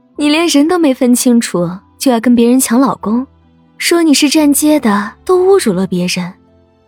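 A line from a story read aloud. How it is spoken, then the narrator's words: Sneering, contemptuous. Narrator (Chinese): 一张嘴就是讽刺极致的轻蔑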